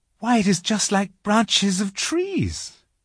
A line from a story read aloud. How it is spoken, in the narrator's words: exclaimed Lucy